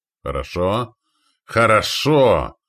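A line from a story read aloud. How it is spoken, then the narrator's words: Pleased exclamation, chief. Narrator (Russian): воскликнул довольный вождь Натангов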